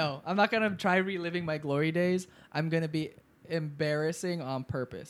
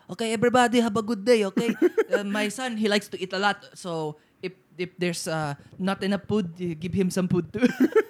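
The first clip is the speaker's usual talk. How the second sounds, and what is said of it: Put-on Filipino accent. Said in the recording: “I'll just like have a Filipino accent.”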